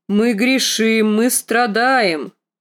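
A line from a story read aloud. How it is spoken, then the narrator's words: Loud booming bass. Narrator (Russian): проговорил он гулким басом, куда громче, чем ее отец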